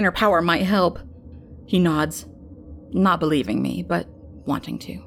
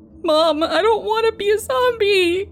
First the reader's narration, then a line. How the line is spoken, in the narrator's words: he cries